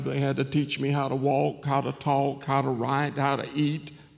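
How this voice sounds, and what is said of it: Southern drawl. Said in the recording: “the Southern drawl”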